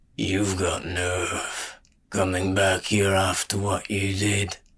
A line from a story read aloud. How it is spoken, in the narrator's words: the old man growled in the gutter tongue